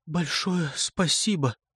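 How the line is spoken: Strained choked voice. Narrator (Russian): добавляет она сдавленным голосом

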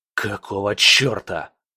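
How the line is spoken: Growling. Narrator (Russian): прорычал

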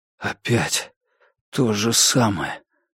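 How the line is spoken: Whispered. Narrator (Russian): прошептал я

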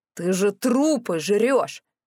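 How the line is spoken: Growled. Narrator (Russian): зарычал Морис

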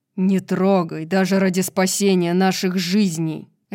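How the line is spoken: Barked. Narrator (Russian): рявкнула Зриэль

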